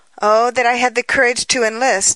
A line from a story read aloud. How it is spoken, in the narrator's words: he cried